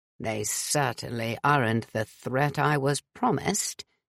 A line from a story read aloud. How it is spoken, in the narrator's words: grumbled, looking dissatisfied